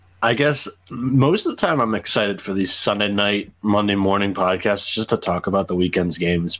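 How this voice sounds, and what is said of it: Slightly congested, deeper voice. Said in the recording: “I have a little bit of sniffles, so my voice is a little bit deeper today.”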